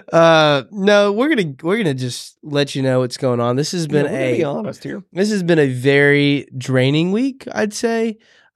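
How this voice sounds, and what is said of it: Sick-sounding voice, low energy. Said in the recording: “I've been sick really the whole week ... as you can tell by my voice and probably my energy right now”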